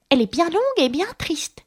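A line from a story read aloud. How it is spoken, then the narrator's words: Sighing exclamation, mouse. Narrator (French): s'exclama la souris en soupirant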